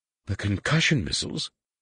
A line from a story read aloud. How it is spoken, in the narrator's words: Leia gasped